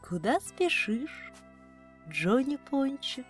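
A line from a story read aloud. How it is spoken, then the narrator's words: Gentle, affectionate question. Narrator (Russian): спросила лиса ласковым голосом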